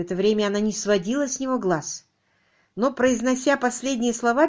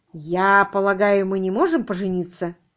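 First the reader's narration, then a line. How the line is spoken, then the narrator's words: Strange offhand tone. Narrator (Russian): Феликс произнес странным и бесцеремонным тоном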